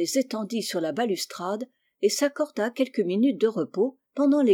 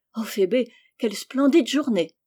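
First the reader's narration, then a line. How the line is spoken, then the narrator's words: Exclaimed. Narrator (French): s'écria Rose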